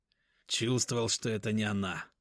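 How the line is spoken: Father speaking through teeth. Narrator (Russian): процедил отец Риты

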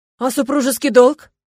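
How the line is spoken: Exclaimed. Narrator (Russian): воскликнул Стефан

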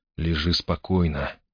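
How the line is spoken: Gentle request. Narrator (Russian): ласково попросил Грей

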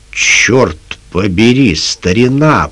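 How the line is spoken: Grumbling. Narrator (Russian): проворчал он

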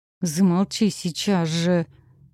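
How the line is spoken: Hissed through teeth. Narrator (Russian): сквозь зубы процедила я

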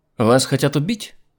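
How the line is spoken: Sharp question. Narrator (Russian): резким голосом спросила она

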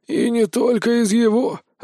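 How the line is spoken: Sigh. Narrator (Russian): вздохнул Брон

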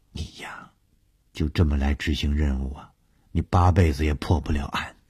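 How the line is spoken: Half-joking. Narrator (Chinese): 小梅……半开玩笑地说

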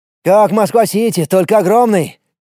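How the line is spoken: Admiring shout. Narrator (Russian): восхищенно крикнул Влад

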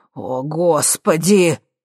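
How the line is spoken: Relieved exhale. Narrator (Russian): с облегчением выдохнул Бестужев

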